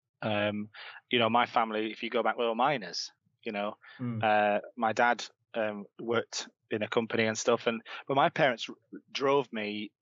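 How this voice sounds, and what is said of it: Leeds accent. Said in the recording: “I grew up in Leeds. You might be able to tell from my accent.”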